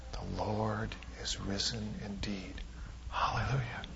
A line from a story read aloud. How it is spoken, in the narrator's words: whisper back